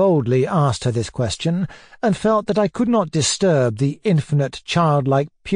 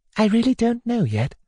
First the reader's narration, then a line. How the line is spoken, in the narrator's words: she answered me quietly